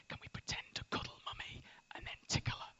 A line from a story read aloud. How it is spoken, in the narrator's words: Bella will come up to me and she'll whisper